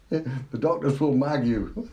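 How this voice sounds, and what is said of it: Weak put-on Cockney accent. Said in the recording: “With his Cockney accent, which I'm not very good at.”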